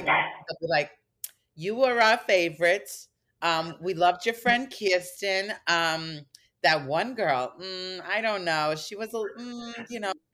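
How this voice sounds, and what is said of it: New York accent impression. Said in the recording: “they're very like New York... You're doing a great impression.”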